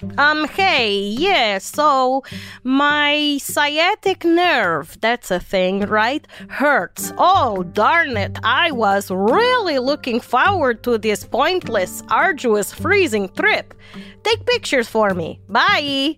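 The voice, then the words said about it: Put-on Russian accent. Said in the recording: “That was my Russian impression.”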